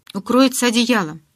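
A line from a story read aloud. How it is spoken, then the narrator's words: Barked. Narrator (Russian): рявкнул я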